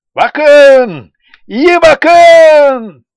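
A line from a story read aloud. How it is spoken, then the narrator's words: Herdsman shouting. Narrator (Turkish): diye bağırdı sürübaşı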